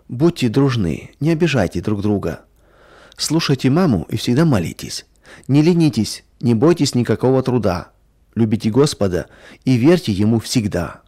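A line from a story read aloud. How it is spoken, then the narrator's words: Tender. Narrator (Russian): а он ласково говорил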